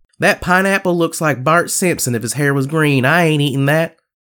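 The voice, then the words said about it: Exaggerated stereotyped white-person voice. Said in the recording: “my impression of a white person seeing a exotic food”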